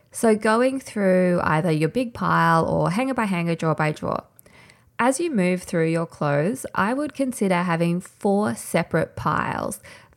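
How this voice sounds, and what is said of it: Slightly hoarse, nasal voice. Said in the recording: “lose my voice a little bit ... I apologize if my voice is a bit nasally”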